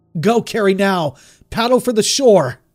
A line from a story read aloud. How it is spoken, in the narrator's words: I screamed